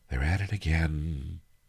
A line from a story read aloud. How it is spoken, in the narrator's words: he sighed to himself